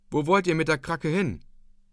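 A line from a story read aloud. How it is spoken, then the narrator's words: Calling out. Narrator (German): rief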